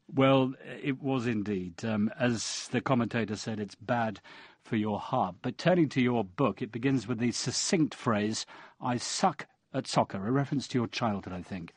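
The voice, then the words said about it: Noticeable foreign accent. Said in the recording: “I assume based on your accent and your home nation's ugly performance”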